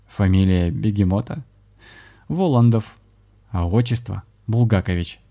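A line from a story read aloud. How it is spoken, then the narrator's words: Man guffawing. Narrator (Russian): захохотал мужчина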